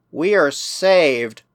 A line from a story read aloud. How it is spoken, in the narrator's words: murmured Protexa